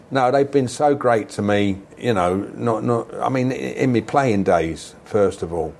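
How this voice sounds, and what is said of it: Yorkshire-sounding English accent. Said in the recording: “a lot of them think I am Yorkshire because I've been up here that long with a blooming accent like this”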